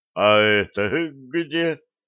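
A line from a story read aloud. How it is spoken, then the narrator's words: Sleepy question. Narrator (Russian): сонно хлопая глазами, спросил штурман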